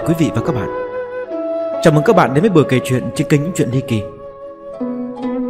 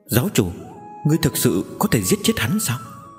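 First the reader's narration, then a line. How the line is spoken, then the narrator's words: Soft. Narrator (Vietnamese): Giang Mễu khẽ nói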